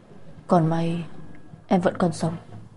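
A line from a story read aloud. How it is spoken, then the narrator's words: Gentle. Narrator (Vietnamese): Anh nhẹ nhàng nói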